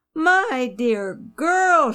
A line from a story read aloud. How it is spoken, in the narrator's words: exclaimed